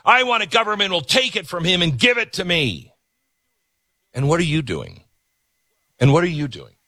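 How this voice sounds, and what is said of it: Yelling, loud ranting voice. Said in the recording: “I feel like I'm always yelling at you. ... I got to yell at somebody.”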